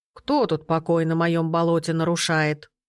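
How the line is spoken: Old man's creaky grumble. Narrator (Russian): проворчал старик скрипучим голосом

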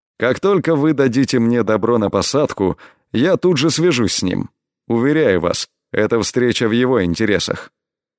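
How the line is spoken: Said coldly. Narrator (Russian): холодно произнес Элай

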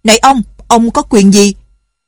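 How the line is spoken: Angry count shouting. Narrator (Vietnamese): Bá tước phẫn nộ quát

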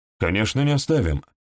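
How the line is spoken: Sharp. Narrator (Russian): резко проговорил Сандерс

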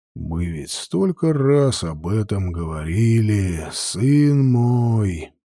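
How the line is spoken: Sighed, priest. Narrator (Russian): вздохнул жрец

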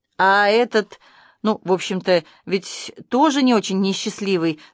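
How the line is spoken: Hesitant. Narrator (Russian): неуверенно сказал Арбуз

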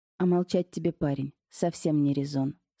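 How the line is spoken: Calm speech. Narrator (Russian): спокойно сказала

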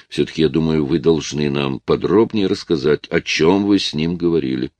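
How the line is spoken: Calm. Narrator (Russian): спокойно произнесла леди Марго

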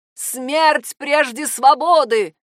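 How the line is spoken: Screamed. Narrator (Russian): закричала она

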